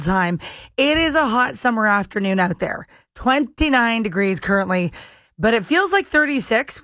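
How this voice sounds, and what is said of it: Slightly hoarse, worn voice. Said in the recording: “I'm losing my voice a little bit”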